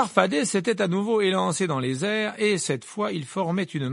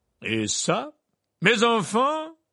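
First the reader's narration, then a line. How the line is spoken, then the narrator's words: Exclaimed. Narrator (French): s'exclama M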